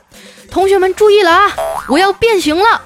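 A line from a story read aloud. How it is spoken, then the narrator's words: Loud shout. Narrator (Chinese): 大声喝道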